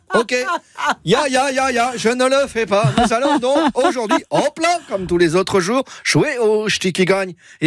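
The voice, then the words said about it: Put-on Alsatian French accent. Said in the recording (French): “prendre l'accent alsacien ... cet accent ridicule”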